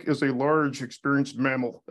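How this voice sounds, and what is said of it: Imitates another person's voice. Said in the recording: “my Daryl impression.”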